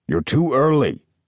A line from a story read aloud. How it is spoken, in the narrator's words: growled the kangaroo